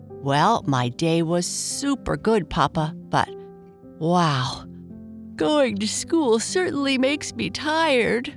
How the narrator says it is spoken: Bernice said with a yawn

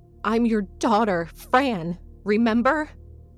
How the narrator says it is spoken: I shouted, unable to restrain my fears, my frustrations

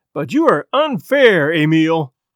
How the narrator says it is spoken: cried Chris Farrington, his sensitive face flushed and hurt

